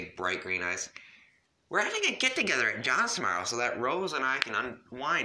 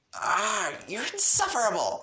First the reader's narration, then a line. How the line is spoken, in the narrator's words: she exclaimed